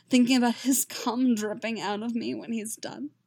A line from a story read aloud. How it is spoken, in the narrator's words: Geralt moans